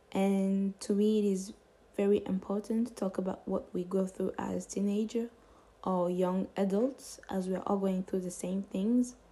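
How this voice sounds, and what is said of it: Non-native English, French accent. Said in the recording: “I apologize for my accent. As you can hear, English isn't my first language, so sorry for my mispronunciation ... my first thought was to do it in French”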